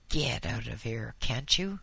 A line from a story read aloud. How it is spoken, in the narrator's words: growled